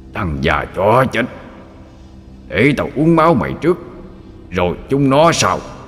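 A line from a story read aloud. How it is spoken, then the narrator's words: Demon's roar. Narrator (Vietnamese): Con quỷ gầm lên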